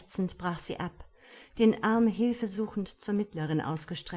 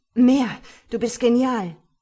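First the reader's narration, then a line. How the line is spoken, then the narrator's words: Called out. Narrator (German): rief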